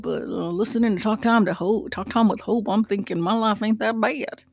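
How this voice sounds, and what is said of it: Put-on weird country accent. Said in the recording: “in a country kind of weird accent”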